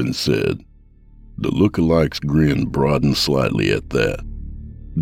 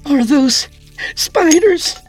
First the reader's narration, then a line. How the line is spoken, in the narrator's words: Katrina cried